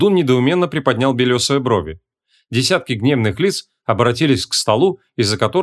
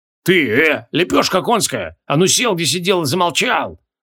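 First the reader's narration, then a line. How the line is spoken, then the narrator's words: Growling, emotional burly young man. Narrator (Russian): прорычал дюжий парнище, только что украдкой утиравший скупую слезу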